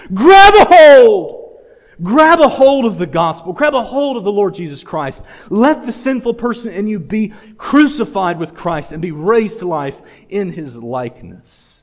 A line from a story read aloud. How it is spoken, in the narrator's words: you're going to scream with all your might